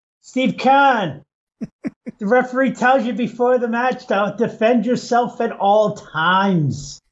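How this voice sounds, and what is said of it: Imitates another person's voice, foreign-sounding. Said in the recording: “It sounds more like Schwarzenegger than a New England accent.”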